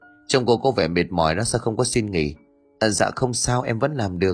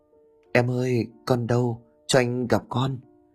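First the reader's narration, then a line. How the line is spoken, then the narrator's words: Whisper. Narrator (Vietnamese): Bằng thì thầm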